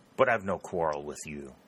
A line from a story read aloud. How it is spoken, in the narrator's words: said Harley sullenly